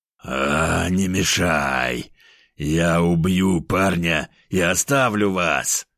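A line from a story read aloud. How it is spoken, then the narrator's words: Furious tiger growl. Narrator (Russian): Рычал тигр, яростно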